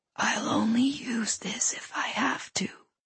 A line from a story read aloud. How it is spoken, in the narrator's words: he whispered